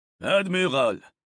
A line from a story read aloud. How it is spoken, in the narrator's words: the colonel growled upon reaching the roof